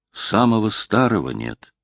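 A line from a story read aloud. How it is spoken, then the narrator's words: Sad. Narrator (Russian): сказал он грустно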